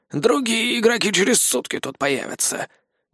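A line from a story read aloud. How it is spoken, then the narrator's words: Grumbling. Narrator (Russian): проворчал Владимир Григорьевич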